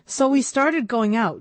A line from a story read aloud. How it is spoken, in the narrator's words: Jake said, raising his voice to be heard over the increasing din